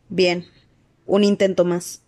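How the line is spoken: Resigned voice. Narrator (Spanish): dijo con voz resignada

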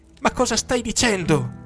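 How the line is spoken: Shouting at full voice, tearful. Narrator (Italian): urlai io a pieni polmoni col viso rigato di lacrime

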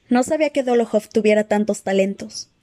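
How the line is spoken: Plain. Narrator (Spanish): dijo finalmente

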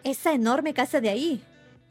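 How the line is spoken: Exclaimed. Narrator (Spanish): exclamó

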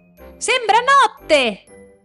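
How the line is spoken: Sea urchin shouting. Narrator (Italian): gridò il riccio di mare

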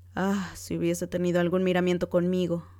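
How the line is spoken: Impatient husband shouting. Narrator (Spanish): gritó el marido impaciente

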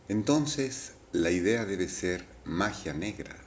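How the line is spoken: Plain. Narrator (Spanish): dijo

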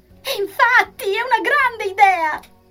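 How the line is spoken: Increasingly excited exclamation. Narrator (Italian): esclamò, sempre più gasata

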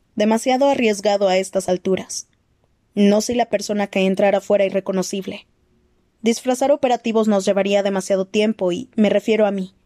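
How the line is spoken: Plain. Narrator (Spanish): dijo Victoria

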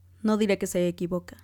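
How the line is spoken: Plain. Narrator (Spanish): respondió él

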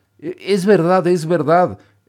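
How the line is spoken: Shouted while crying. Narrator (Spanish): gritó Pinocho llorando

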